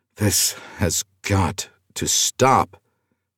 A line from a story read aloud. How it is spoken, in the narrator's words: Ulysses grumbled to himself